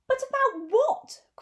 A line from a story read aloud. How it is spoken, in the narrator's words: cried Sly Looking, pretending to be alarmed